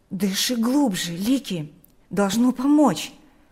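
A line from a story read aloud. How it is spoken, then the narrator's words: Agitated speech. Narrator (Russian): взволнованно произнес Берни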